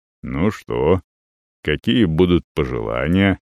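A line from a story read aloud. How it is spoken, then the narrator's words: Unexpectedly deep bass question. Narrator (Russian): неожиданно густым басом спрашивает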